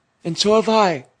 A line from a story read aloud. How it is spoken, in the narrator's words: cried Peter